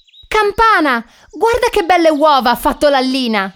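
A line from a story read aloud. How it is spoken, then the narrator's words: Little rabbit shouting. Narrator (Italian): grida il coniglietto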